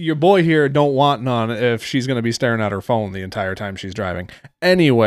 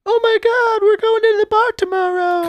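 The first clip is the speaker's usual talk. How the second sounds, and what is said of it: Imitates a young woman's chatty voice. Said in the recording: “referring to these chicks that are driving and imitating what they're...”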